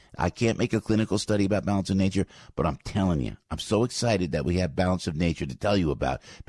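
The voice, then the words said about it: Low dramatic radio announcer voice. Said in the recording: “This is my radio voice to make sure you know that this is important. I drop my voice and I make it dramatic.”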